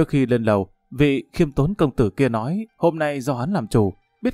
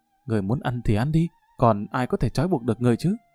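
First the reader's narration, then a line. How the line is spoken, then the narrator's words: Soft snapping young woman. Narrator (Vietnamese): Đại tiểu thư khẽ gắt một tiếng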